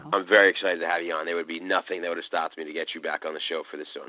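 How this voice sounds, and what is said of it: Slightly congested, sick-sounding voice. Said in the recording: “As you can tell from my voice, I'm just getting over a little bit of a cold here”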